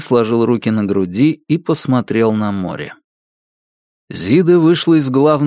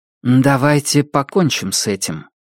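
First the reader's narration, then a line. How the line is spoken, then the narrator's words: Grimly. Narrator (Russian): мрачно сказала она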